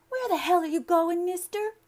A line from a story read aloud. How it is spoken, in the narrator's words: girl cried